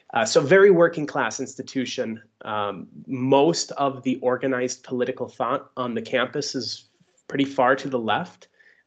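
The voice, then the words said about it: Upper Peninsula Michigan accent. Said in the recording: “my accent is from the Upper Peninsula”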